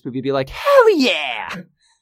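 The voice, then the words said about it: High-pitched rocker-dude imitation. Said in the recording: “Your voice was too high-pitched for a good mimicry there. ... high-pitched, more like rocker sort of ... radical dude sort of”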